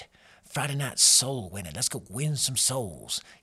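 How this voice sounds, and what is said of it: Put-on Southern accent. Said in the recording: “I say it with a southern accent. It just feels right. ... I'm going to keep talking like that for the rest of the day.”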